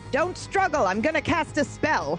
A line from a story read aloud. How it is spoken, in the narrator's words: I shout